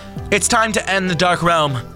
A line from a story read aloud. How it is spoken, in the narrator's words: Jordan cried out to the room